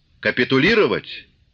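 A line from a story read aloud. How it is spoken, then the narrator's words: Sharp interrupting question. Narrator (Russian): спросил, резко прерывая его, Корнилов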